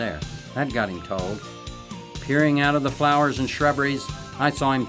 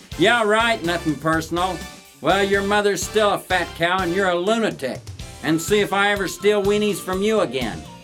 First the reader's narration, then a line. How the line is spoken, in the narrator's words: yelled back